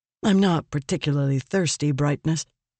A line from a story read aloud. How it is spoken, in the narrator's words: Vale said